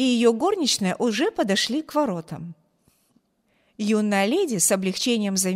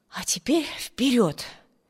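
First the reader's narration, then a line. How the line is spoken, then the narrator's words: Muttered. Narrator (Russian): пробормотала она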